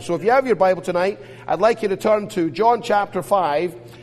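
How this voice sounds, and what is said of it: Speaks with a noticeable accent. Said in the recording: “I hope by now you're used to my accent. Everyone tells me I have an accent ... the guy with a bit of an accent”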